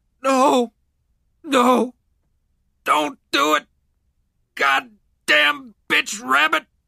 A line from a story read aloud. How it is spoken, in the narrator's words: McConville sobbed